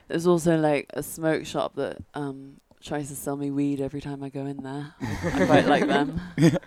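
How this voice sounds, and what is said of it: Posh 1960s-style British accent. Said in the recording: “it sounds like almost a... It's like a 60s British accent ... it's not South London, but it's definitely not Northern ... it's more proper ... posh”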